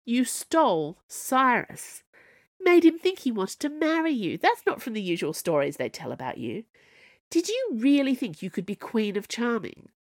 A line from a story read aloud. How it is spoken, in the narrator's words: The Snow Queen laughed